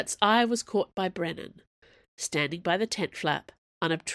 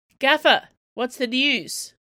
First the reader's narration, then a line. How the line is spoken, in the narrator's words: yelled out one of the grips